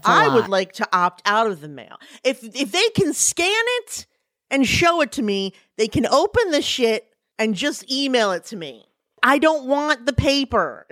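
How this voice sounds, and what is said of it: Yelling, loud agitated speech. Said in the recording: “I'm yelling”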